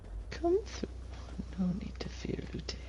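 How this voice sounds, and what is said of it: Creepy character voice. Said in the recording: “that was a creepy voice.”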